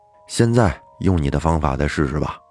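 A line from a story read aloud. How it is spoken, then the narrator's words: Flat and calm. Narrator (Chinese): 刘强淡淡的说道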